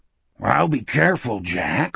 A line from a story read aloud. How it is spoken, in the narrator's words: Wolf said, his voice little more than a growl